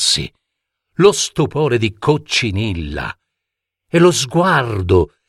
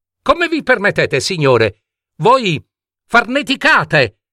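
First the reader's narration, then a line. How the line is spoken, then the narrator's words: Shouted. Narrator (Italian): gridò Coccinilla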